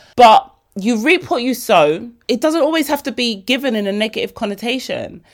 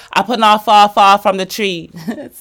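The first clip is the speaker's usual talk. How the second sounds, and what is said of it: Put-on Jamaican accent. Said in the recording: “Stop it with the Jamaican accent.”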